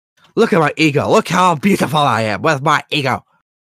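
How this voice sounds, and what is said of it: Mocking impression of a vain celebrity. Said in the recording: “Who's that an impression of? ... Just dickhead celebrities.”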